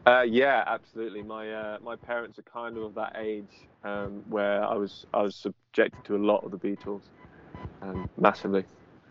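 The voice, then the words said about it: Liverpool English accent. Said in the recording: “given your accent, where you're from ... obviously from Liverpool”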